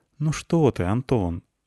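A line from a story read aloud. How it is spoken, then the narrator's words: Sad, smiling. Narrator (Russian): грустно улыбнулась она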